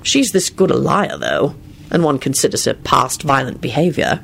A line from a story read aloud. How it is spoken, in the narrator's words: he muttered